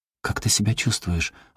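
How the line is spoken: Timid question. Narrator (Russian): робко спросила

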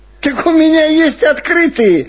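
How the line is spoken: Joyful. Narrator (Russian): радостно сказал шофер

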